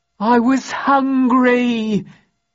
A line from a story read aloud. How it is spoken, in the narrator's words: he howled